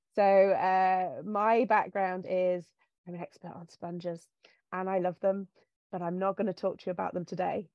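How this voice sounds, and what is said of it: English accent. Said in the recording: “I went to university over in England. You can hear from my voice, I'm from over in that direction.”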